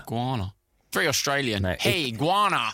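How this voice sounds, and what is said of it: Unconvincing attempt at Australian accent. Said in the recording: “That was not even Australian, close to being an Australian accent. If you've never been to Australia or heard an Australian person, that is not it. ... That was a Yemen accent, a pretty good one, actually.”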